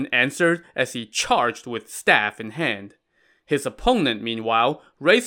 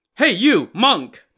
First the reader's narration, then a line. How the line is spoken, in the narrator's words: the man shouted